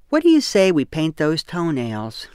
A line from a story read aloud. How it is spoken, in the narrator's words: she asked